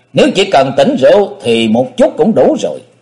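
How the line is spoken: Laughing loudly. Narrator (Vietnamese): Võ Lâm Thánh Quân cười lớn nói

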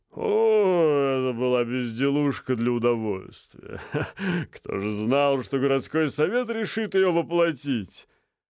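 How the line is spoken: Laughing. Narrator (Russian): рассмеялся Вильямсон

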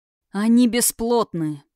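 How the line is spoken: Through gritted teeth. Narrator (Russian): процедил Эрисхайм

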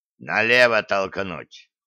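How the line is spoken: Growl. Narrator (Russian): рыкнул Гиви

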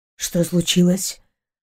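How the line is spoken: Hoarse sleepy question. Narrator (Russian): Охрипшим от глубокого сна голосом спросил он

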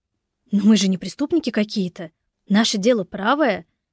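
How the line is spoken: Exclaimed. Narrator (Russian): воскликнула Катя

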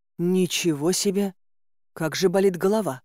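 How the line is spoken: Groaning. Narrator (Russian): Застонав, я

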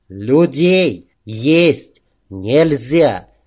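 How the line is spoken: Loud, word by word. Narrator (Russian): Макс, громко разделяя каждое слово, произнес

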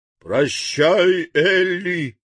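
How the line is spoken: Unrestrained shout. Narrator (Russian): крикнул дровосек, не сдерживая слов

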